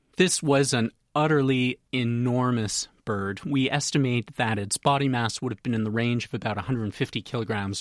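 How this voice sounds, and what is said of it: Canadian accent. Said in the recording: “I'm from Canada, as you can probably tell from my accent”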